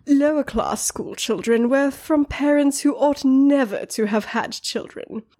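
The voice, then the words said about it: Put-on accent. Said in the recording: “I'm going to try to say this in a Ponzi accent,”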